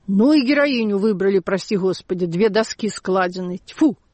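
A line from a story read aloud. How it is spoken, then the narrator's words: Said angrily. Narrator (Russian): парикмахер, у которого я делала укладку, сказал сердито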